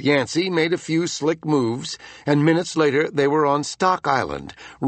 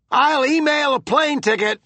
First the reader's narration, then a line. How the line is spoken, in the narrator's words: Amp shouted after him